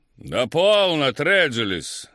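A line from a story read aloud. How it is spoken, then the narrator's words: Shouting prince. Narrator (Russian): закричал принц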